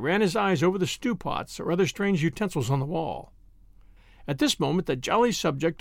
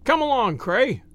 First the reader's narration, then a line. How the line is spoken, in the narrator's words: he cried